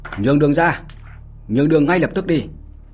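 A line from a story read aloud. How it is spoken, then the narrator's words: Loud commanding shout. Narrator (Vietnamese): Một tên tướng lĩnh của đế quốc Minh Nguyệt lớn tiếng mà quát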